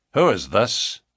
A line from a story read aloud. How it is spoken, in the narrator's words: he asked curtly